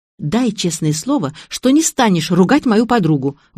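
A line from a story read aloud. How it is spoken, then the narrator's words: Exclaimed. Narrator (Russian): воскликнула я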